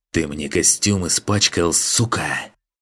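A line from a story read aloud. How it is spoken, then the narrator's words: Hissing. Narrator (Russian): прошипел кто-то ему в лицо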